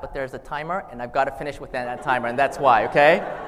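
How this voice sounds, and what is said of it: Very fast speech. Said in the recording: “sorry I'm talking so fast”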